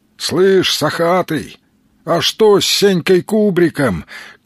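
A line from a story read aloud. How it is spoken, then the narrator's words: Shout while running. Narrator (Russian): крикнул Сергей, догоняя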